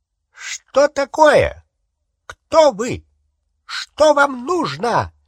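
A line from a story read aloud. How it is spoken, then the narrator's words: Shrill, cantankerous shout. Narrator (Russian): закричал он пронзительным, сварливым голосом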